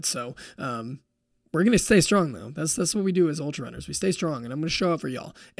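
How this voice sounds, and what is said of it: Slightly off, worn-down voice. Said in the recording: “my voice is a little off. I don't know why. I think I've been on calls a lot, recording podcasts. I think my voice is just slowly starting to deteriorate a little bit”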